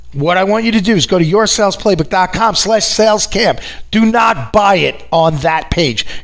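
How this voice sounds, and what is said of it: New York accent. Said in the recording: “that damn New York accent keeps getting in the way.”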